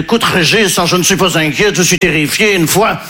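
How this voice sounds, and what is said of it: Put-on Belgian French accent. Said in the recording (French): “là je prends l'accent belge parce que je ne sais pas faire l'accent ukrainien”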